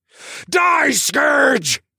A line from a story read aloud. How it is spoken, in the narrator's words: roared out